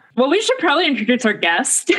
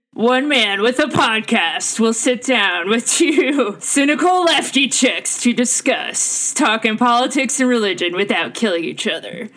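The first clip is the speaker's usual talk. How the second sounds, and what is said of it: Movie trailer narrator voice. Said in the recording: “trailer voice”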